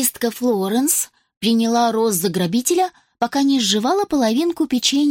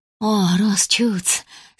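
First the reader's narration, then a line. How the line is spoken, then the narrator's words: Relieved exhale. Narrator (Russian): с облегчением выдохнула она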